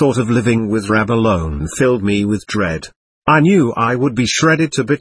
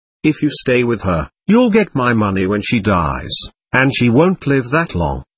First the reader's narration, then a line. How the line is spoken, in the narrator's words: he said firmly